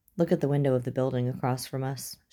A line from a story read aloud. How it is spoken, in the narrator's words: she said in a low tone